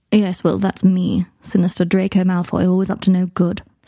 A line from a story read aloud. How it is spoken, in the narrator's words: said Malfoy, grimly